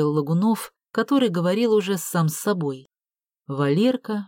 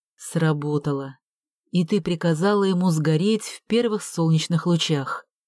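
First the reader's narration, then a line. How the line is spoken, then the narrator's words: Sad exhale. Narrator (Russian): грустно выдохнул Валерка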